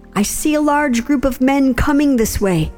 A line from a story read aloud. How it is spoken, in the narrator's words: the guard in the watchtower at Jezreel saw Jehu and his men riding up, he shouted to the king